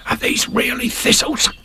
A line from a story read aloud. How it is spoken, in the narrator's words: He whispered